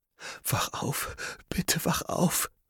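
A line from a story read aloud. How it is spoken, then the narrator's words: Soft pleading. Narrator (German): flehte leise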